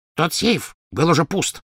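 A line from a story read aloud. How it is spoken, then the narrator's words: Snapping retort. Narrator (Russian): огрызнулся гоблин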